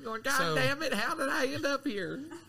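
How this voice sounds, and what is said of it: Weird character voice. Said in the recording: “weird voice”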